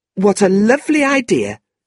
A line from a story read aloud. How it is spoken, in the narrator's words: Tilda said excitedly